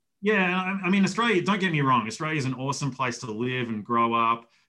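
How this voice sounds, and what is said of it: Australian accent from Melbourne. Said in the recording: “with such cool accents ... I love listening to ... talk ... Where Where are you from in Australia? ... Melbourne ... they're all going to sound like ... an accent certainly goes a long way”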